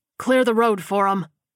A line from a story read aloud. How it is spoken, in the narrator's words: he barked